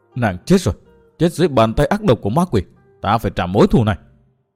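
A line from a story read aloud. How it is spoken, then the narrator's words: Muttering through clenched teeth. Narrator (Vietnamese): Dòng lệ đã vơi, đôi mắt đỏ ngầu, chàng nghiến răng lẩm bẩm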